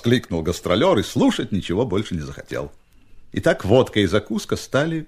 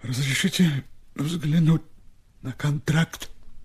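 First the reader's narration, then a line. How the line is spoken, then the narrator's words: Quiet request. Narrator (Russian): тихо попросил Степа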